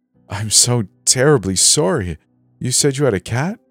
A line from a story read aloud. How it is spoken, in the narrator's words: she asked